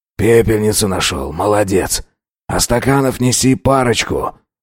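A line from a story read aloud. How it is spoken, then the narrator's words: Exhaling, through clenched teeth. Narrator (Russian): Выдохнув, процедил Антипов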